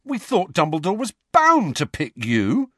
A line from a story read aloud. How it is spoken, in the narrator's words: said George indignantly